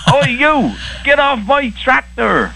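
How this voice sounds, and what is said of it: Barnyard farmer impression voice. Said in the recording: “my barnyard impression”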